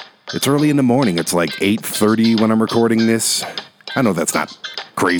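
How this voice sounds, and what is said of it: Usual voice. Nothing is said of it.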